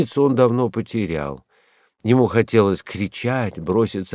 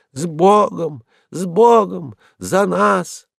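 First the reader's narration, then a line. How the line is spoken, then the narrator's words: Hoarse drink-worn voice, drowned out. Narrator (Russian): его сиплый, пропитый голос тонул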